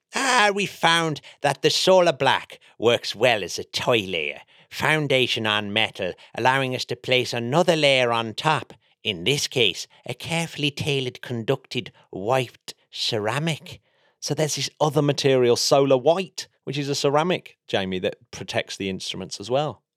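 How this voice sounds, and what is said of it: Put-on Irish accent. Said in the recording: “That was a good accent too ... it's always a bit dodgy as an Englishman doing Irish accents”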